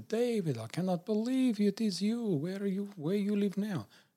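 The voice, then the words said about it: Put-on Polish accent, sounding Russian. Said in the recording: “in his beautiful Polish accent ... Is that Polish or German? ... I think it's a bit Russian. ... It sounds a bit Russian. ... You're very good at it though.”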